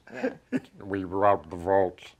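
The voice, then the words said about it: Alan Rickman impression. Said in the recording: “My Alan Rickman, it's going to get better.”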